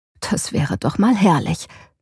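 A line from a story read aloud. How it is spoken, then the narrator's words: Murmuring. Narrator (German): murmelte sie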